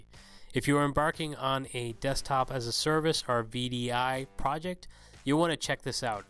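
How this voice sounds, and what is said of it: Slightly off, sick-sounding voice. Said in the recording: “I'm sorry if my voice is a little bit off. I am sick again.”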